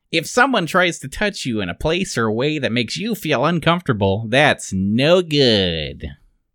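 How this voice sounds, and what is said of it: Urkel character voice. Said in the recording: “I have to do my Urkel voice.”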